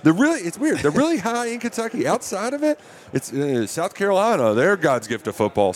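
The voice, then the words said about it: Slight Kentucky accent. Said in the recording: “your Kentucky pronunciation of the word high ... I still got myself a little accent there”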